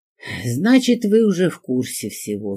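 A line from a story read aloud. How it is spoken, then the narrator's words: Tired sigh. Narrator (Russian): вздохнул Климов и устало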